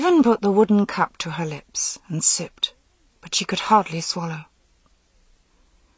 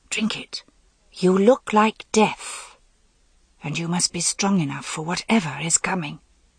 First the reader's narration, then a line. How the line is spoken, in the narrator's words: she said in a harsh whisper